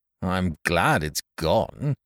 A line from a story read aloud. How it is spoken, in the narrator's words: muttered Tackleton